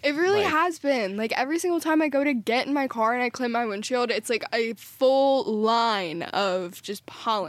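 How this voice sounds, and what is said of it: Congested, rough-sounding voice. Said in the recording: “Besides this cough, my allergies have been terrible... I'm sure you can hear it in my voice... I'm not trying to sound like this.”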